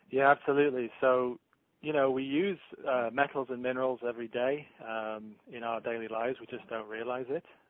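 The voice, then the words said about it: English accent. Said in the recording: “What's your accent from? ... I grew up in the United Kingdom, so I'm from England.”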